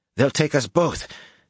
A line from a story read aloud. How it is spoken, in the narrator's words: Kismin breathed, sounding frantic